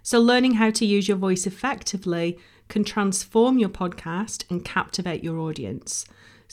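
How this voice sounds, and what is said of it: Strained voice from a cold. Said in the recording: “my voice is really struggling. I've had a bit of a cough and a cold this week.”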